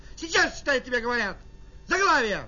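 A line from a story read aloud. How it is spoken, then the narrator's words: Shouting. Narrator (Russian): она кричала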